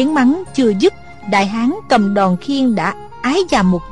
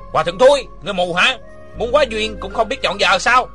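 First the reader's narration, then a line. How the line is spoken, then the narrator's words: Scolding shout. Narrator (Vietnamese): có người quát mắng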